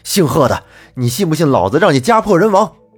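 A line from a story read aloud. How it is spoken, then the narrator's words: Angry. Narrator (Chinese): 我愤怒地说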